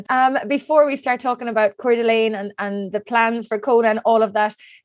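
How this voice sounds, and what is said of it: Irish accent. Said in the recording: “that sounds even better coming from your Irish accent”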